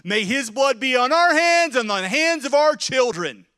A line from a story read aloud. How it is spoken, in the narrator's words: the Jews begin to shout